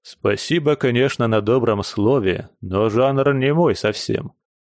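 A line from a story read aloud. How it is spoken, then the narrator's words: Plain. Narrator (Russian): ответил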